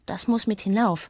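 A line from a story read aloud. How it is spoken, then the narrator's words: Plain. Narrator (German): sagt sie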